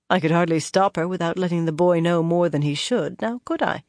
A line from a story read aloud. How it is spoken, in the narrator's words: Cadswain replied dryly